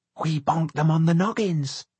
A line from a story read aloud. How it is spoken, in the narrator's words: Laura Glue whispered